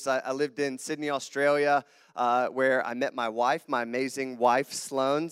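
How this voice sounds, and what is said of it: Slight southern American twang. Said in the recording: “I have a southern accent... my southern twang... little southern twang though? Just slightly. My accents have blurred over the years.”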